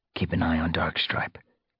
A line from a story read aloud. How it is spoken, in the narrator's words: Fireheart followed, murmuring to Sandstorm